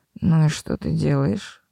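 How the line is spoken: Muffled grumbling. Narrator (Russian): послышалось глухое ворчание

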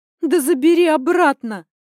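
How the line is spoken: Shout. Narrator (Russian): выкрикнула я

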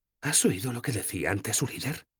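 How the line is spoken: Whispered. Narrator (Spanish): susurró Sefawin

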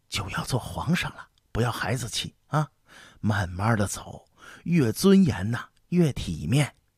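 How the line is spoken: Hurried whisper. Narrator (Chinese): 苏麻喇姑赶紧跟他低声说

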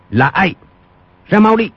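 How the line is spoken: Shout. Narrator (Vietnamese): Quách Tĩnh quát lên

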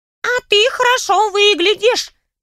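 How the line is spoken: Squeaky voice from below. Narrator (Russian): пропищал голос откуда-то снизу

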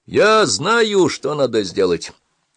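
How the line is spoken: Shouting after someone. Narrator (Russian): крикнул тоже как бы вдогонку

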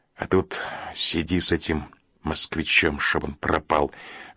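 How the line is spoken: Grumbling. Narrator (Russian): ворчал Петр

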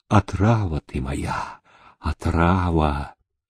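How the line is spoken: Drunken incoherent muttering. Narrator (Russian): Хмельной, горячий, бессвязно бормотал

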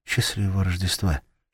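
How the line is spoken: Whisper. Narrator (Russian): шепнула она

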